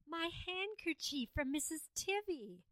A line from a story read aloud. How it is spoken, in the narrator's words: Madeline gasped